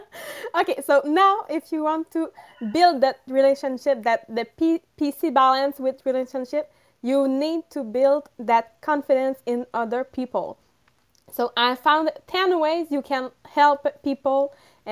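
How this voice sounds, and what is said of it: Heavy French accent. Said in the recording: “this is a heavy French accent”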